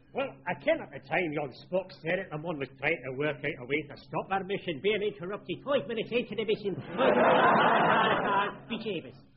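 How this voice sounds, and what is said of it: Scottish accent slipping into Irish. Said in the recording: “Scottish accent which keeps lapsing into my native Irish accent”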